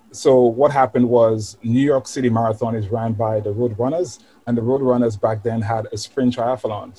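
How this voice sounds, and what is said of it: West Indian Caribbean accent. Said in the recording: “you've got a bit of an accent there ... I'm from the West Indies ... I'm from St. Lucia, actually. Caribbean island”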